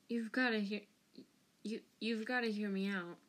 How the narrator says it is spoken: he croaked

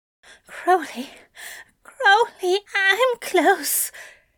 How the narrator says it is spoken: groaned, words half-broken

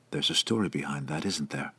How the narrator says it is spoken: he asked quietly

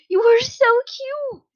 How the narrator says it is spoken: the older blonde exclaimed

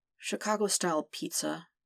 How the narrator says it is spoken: Peter murmured

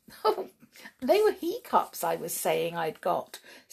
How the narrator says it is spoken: said Sheila with a giggle

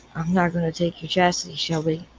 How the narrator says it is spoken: he breathed into her mouth

